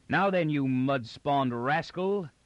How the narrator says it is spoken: the beach guard, with a fire-red face and snarling mouth, at a run

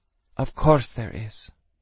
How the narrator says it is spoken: Mom said quietly

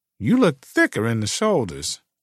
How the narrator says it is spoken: She playfully said

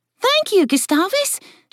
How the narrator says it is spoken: Jillian said in an excited tone

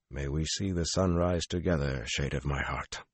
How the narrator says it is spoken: heard him murmur

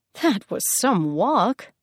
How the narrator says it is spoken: Hermes scoffed

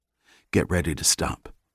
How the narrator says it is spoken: Reacher whispered

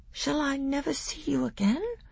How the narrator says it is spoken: said Caspian in a quavering voice

